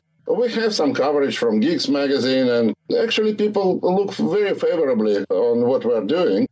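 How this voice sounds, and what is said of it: Russian accent. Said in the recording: “You've got the awesome Russian accent. I love Russian accents.”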